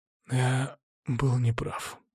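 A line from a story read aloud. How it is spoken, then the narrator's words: Whisper. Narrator (Russian): прошептал он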